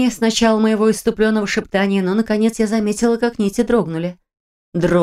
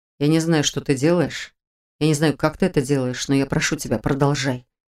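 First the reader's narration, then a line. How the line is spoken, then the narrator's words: Quiet. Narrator (Russian): вымолвил Этьен тихо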